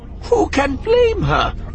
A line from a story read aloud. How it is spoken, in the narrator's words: Maz exclaimed